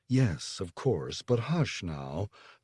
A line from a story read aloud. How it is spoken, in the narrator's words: the mother murmured